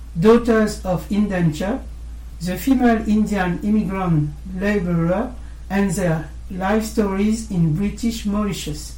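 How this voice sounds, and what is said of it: Poor accent reading English titles. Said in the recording (French): “malgré mon déplorable accent.”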